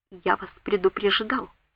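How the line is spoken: Quiet. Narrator (Russian): сказал Слэдж тихо

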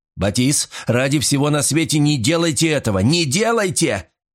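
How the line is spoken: Shouted. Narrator (Russian): закричал я

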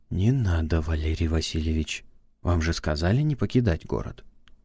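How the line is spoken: Almost whispering. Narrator (Russian): Длинноволосый почти шепотом произнес

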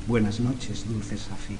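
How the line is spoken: Murmured. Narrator (Spanish): Félix murmuraba

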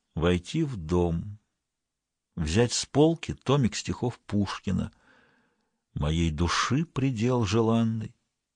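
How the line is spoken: Quiet. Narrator (Russian): он задумался, потом тихо проговорил

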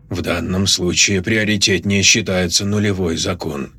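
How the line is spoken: Said softly. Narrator (Russian): мягко сказал Линь

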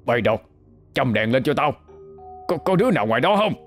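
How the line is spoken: Shouting. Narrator (Vietnamese): Cậu Hai quát lên

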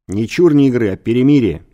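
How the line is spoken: Angry correction. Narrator (Russian): сердито поправил

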